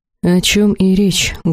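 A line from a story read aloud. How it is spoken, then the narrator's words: Muffled reply. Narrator (Russian): глухо отозвался Элахар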